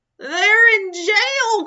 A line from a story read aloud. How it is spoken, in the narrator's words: cried Dots